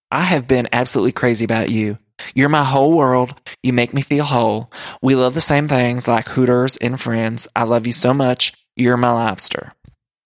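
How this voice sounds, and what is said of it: Imitates another person's voice. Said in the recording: “the Brittany accent”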